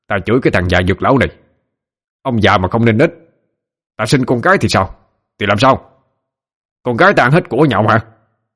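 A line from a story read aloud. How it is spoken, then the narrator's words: Furious shout. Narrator (Vietnamese): Nhắc đến chuyện con cái giống như chọc giận Trần Tam, hắn quát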